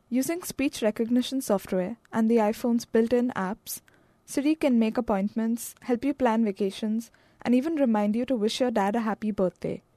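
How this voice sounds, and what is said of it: Non-native English accent. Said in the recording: “If you have an accent that's a little different, like mine”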